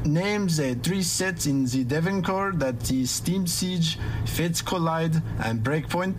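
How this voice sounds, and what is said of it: Speaking in a put-on accent. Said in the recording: “coming back with another accent.”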